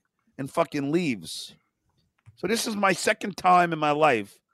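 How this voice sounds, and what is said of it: Usual voice. Nothing is said of it.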